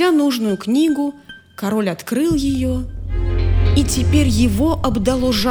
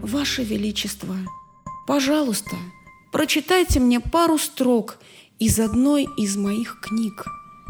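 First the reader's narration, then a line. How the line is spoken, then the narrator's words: Very soft whisper. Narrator (Russian): тот человек тихо-тихо прошептал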